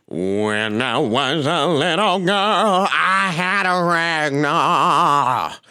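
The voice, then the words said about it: Imitates another person's singing voice. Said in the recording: “This is Tina. ... That's Tina. ... a flawless Tina Turner okay. impersonation.”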